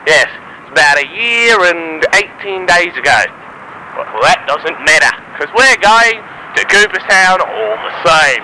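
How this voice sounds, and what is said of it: Put-on Australian accent. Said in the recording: “I just like talking in an Australian accent.”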